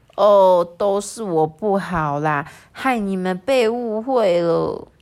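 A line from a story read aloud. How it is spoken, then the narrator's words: Serious murmur. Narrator (Chinese): 火兽啊，收起了笑容，喃喃的说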